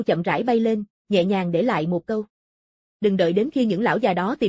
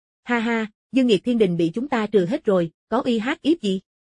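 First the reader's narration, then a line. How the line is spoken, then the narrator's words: Group laughing loudly. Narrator (Vietnamese): Mọi người cười lớn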